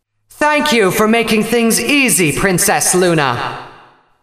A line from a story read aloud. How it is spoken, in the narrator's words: she called out to the injured Alicorn